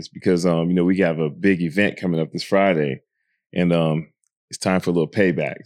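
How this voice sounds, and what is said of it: Raspy, hoarse voice. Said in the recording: “why ... voice is so raspy?”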